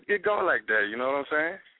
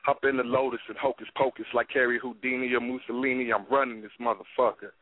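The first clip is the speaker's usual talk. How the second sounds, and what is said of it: Rapping with no accent. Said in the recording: “Where the fuck did the accent go when you when you have that? No accent whatsoever.”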